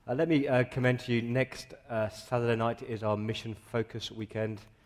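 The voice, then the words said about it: Croaky voice from a cold. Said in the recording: “I've got a bit of a cold, so please excuse the, the croaky voice.”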